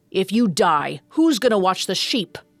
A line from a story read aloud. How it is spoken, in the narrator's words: Doxus growled